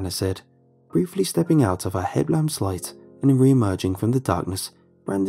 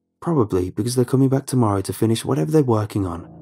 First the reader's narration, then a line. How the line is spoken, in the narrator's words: Rob said quickly